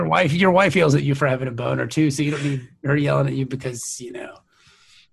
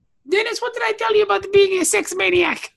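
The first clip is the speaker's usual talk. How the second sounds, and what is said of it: Put-on Turkish accent. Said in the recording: “I don't know that's a good Turkish accent or not. That's as good as you're going to get from me. ... It may not have been in the ballpark, but it's probably the right sport at least.”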